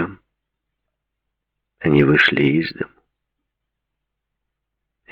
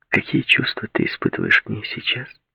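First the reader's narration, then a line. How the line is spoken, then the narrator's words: Quiet question. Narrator (Russian): тихо спросила Линда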